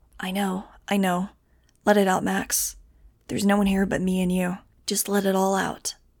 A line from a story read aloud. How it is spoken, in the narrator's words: whispering